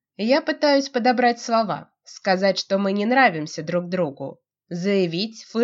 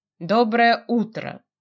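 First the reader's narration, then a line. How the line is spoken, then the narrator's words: Deliberately calm. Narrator (Russian): нарочито спокойно он обращается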